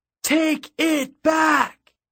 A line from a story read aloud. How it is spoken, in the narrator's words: It was a defiant yell, like a sound shouted into the surf or screamed off a cliff